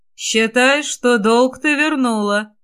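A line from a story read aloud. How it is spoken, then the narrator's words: Mocking, slightly husky. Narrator (Russian): насмешливо сказал Костя с легкой хрипотцой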